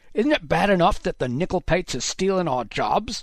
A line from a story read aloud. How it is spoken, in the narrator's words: one of the men shouted, spittle spraying Haddox's face